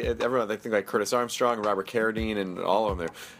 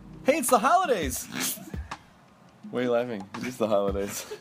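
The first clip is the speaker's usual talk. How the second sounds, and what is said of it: Radio DJ style announcer delivery. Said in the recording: “You sound like a DJ.”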